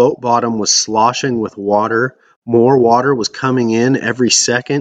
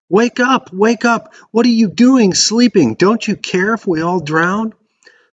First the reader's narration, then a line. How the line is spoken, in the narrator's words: They were in a panic, screaming